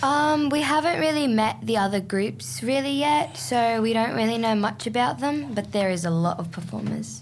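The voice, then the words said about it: Heavy Australian accent. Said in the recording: “heavy Australian accent. You sound really Aussie.”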